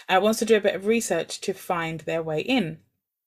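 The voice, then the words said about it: Strained, fading voice. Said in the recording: “I'm losing my voice here. Sorry.”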